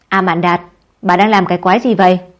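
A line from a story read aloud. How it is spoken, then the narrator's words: Throat-clearing then loud speech. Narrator (Vietnamese): Ba Lạp e hèm một câu rồi lớn tiếng nói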